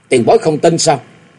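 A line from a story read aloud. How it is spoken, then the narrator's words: Slow cold speech. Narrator (Vietnamese): Nam Cung Lượng từ từ quay lại lạnh lùng nói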